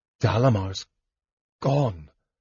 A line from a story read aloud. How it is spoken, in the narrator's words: Palin murmured